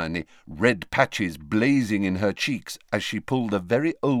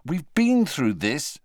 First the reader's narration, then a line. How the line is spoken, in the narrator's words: said Harry crossly